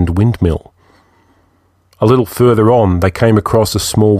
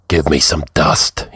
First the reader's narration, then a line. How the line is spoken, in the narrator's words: he said huskily